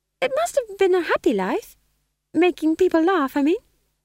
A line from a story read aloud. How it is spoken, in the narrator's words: said Magrat, her voice higher than usual with a vibrato of uncertainty